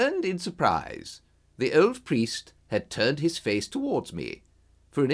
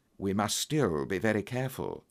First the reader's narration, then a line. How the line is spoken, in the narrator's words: whispered